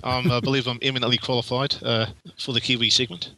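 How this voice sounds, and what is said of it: New Zealand accent. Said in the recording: “Yes, we got the accent for it.”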